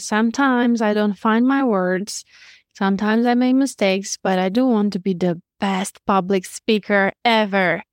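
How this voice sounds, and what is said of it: Romanian accent. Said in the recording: “As you can hear, I'm Romanian. I have an accent.”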